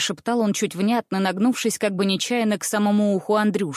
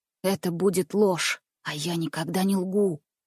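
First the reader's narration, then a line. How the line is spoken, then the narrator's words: Calm whisper. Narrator (Russian): спокойно таким же шепотом отвечал Андрюша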